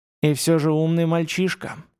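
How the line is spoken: Sighing. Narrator (Russian): вздохнул первый

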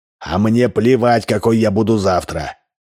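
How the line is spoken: Growled. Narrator (Russian): зарычал Удалов

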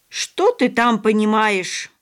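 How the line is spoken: Scolding shout. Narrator (Russian): прикрикнула на сына бабушка

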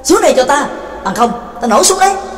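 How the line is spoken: Impatient loud shout. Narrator (Vietnamese): Trắc Mộc Cường Ba đã hết kiên nhẫn, bèn lớn tiếng quát

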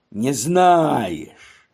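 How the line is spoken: Sudden deep menacing voice. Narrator (Russian): вдруг, переходя на басовые ноты, говорит грозно

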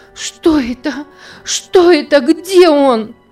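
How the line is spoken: Frantic shout. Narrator (Russian): закричала она вне себя

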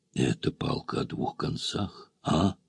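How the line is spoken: Irritated exhale. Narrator (Russian): выдохнул раздраженно

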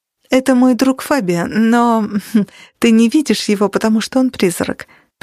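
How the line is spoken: Conciliatory. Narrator (Russian): примирительным тоном объяснила Кэт

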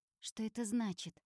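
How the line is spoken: Panicked question. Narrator (Russian): спрашивает Алисия паникующим голосом

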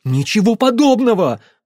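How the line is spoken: Near shout. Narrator (Russian): снова почти выкрикнул Дэмиен

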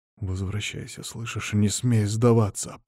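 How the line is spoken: Whisper. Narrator (Russian): прошептал я

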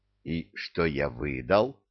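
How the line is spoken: Whispered, young man. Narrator (Russian): прошептал юноша

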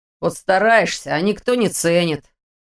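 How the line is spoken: Grumbling. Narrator (Russian): проворчал Ваня

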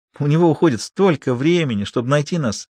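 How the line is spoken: Giggling. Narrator (Russian): хихикнула Лулу

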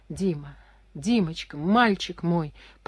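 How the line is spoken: Almost silent whisper. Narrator (Russian): почти беззвучно шептала она

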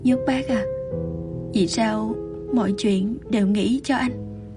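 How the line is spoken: Slightly trembling voice. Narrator (Vietnamese): Thanh âm lúc này đã có chút run rẩy

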